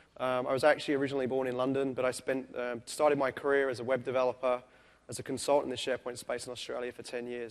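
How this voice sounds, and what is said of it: Noticeable non-American English accent. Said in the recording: “where the hell is his accent from? ... So please bear with the accent, but I'm hoping you guys can all understand me okay.”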